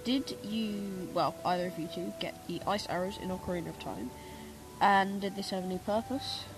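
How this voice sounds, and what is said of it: Stuffy, congested voice. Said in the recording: “I probably sound a bit stupid because I have a cold”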